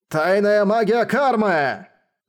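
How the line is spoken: Shouting. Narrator (Russian): закричал он

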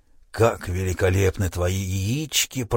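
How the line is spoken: Soothing mumble. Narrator (Russian): продолжал успокаивающе бормотать Шадрач

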